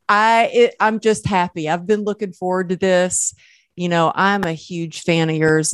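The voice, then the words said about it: Southern American accent. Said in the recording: “don't let the Southern accent fool you”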